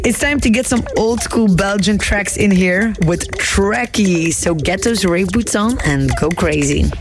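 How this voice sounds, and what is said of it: Worn voice, still recovering. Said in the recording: “As you can hear, my voice is still recovering from the weekend”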